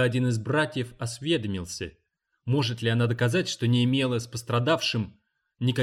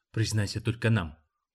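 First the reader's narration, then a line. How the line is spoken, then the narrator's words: Whisper in ear. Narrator (Russian): прошептал ей на ухо второй защитник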